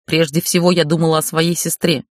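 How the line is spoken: Growled in face. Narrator (Russian): прорычала ему в лицо

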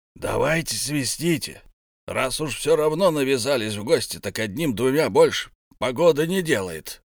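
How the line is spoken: Grumble. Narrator (Russian): проворчал Беорн

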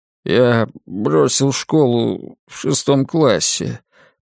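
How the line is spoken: Mumbled. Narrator (Russian): промямлил Ллойд

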